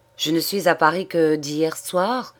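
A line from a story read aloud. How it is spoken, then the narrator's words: Plain. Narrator (French): répondit-il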